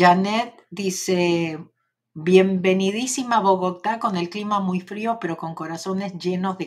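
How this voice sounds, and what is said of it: Usual voice. Nothing is said of it.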